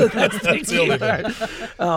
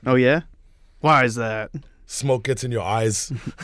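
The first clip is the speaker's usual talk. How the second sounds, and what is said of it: Schwarzenegger accent on one-liners. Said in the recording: “you always going to do the one liners with the accent. ... Schwarzenegger has a great one liner”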